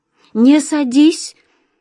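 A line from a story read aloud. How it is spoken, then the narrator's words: Frightened cry. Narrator (Russian): испуганно вскрикнула та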